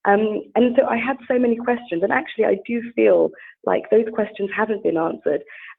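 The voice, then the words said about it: British accent. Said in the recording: “as you can hear from my accent. I mean, I'm very British”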